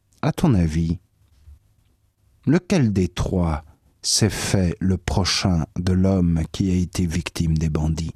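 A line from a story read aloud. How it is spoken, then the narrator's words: Plain. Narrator (French): L'autre répondit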